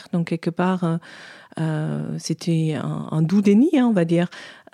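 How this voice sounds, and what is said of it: German accent in French. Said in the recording (French): “Vous l'aurez peut-être deviné à son accent, elle est d'origine allemande.”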